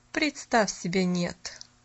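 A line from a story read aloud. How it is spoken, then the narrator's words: Dry reply. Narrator (Russian): сухо отозвалась мисс Сноу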